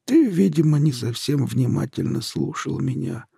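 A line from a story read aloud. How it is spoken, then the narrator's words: Sad reply. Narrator (Russian): грустно отозвался Ухарь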